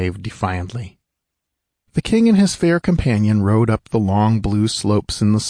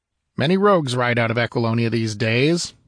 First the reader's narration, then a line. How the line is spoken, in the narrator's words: answered the other coldly